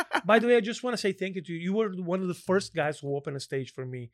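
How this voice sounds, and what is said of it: Foreign accent. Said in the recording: “I'm a foreigner, bro. ... How can someone look at this accent? How can you be mad at this accent?”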